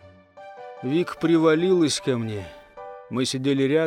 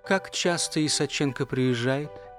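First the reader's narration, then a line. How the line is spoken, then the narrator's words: Quiet question. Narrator (Russian): тихо спросила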